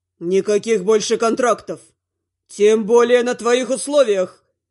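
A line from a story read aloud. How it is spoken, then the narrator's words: Roaring. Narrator (Russian): взревел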